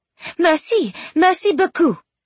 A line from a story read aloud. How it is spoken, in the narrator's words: Penelope exclaimed